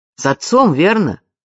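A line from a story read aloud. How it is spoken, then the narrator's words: Loud question. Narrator (Russian): громко спросил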